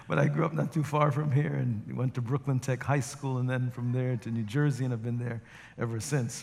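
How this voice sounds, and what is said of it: Slight Jamaican accent. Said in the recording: “If you detect a little bit of an accent, it's because I was born in Jamaica, West Indies ... my accent is a confluence of many different places”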